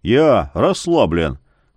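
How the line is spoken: Muttered. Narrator (Russian): буркнул Яромир

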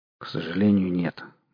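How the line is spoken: Gloomy. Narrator (Russian): мрачно сказал Кудыкин

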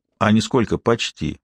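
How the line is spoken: Calm explanation. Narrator (Russian): все так же спокойно пояснил командир

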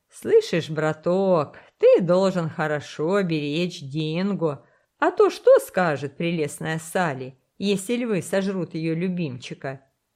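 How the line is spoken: Laughing. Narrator (Russian): рассмеялся боцман

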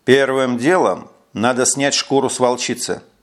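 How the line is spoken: Plain. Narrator (Russian): сказал он

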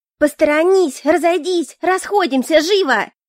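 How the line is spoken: Yelling at full voice. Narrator (Russian): Я орала, как потерпевшая, не жалея голоса

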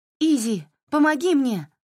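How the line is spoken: Shouted over shoulder. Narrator (Russian): крикнула она через плечо

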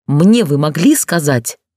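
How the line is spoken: Growled. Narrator (Russian): прорычал я

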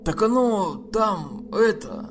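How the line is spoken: Guilty mumbling. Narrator (Russian): с видом виноватого школьника начал мямлить этот самый мудила

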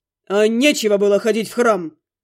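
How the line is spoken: Growl. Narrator (Russian): Рыкнул Глун

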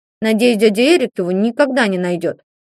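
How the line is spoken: Grumbled. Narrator (Russian): пробурчал Ванька

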